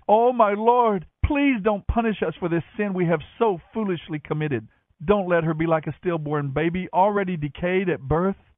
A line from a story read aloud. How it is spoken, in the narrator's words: he cried out to Moses